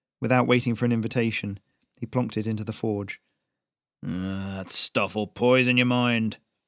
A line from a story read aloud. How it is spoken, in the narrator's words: Jonas growled